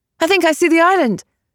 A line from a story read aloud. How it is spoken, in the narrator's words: Tabitha Ransome said excitedly